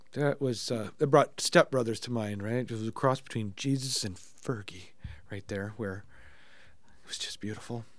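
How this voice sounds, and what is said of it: Hoarse, strained voice. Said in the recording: “If I wasn't losing my voice now... I am just not on form... I've got this cold.”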